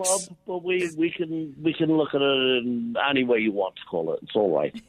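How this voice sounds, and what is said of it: Irish Dublin brogue. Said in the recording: “I could hear your brogue. ... I'm from Dublin City.”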